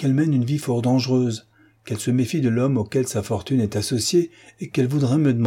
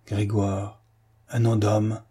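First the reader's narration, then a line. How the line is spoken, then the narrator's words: Old man's muffled voice. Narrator (French): articula le vieux d'une voix sourde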